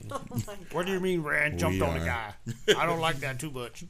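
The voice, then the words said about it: Imitates another person's voice. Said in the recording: “Are you trying to be Teak? ... Yeah, that's my Teak Hall impression.”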